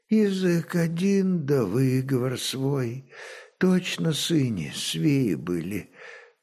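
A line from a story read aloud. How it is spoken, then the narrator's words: Moaning wounded woman. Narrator (Russian): простонала раненая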